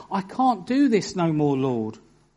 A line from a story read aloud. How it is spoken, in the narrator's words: And he cried out